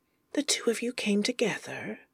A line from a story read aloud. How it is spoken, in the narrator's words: Anathema whispers